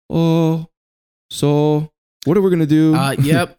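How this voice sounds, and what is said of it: Put-on Japanese accent. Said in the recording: “Japanese impersonation ... my Japanese impressions”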